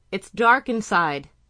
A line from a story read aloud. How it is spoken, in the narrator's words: she yelled to Walden